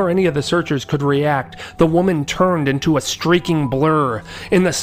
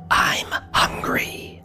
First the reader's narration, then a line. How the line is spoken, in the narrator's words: whispered loudly